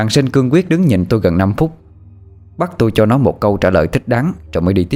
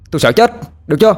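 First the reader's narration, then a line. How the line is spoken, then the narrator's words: Angry snarl then shout. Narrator (Vietnamese): Sinh như muốn lao tới chụp cổ áo tôi, nó gằn lại rồi quát lên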